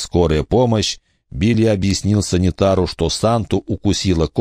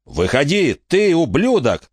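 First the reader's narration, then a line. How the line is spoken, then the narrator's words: Shouting. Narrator (Russian): закричал Билли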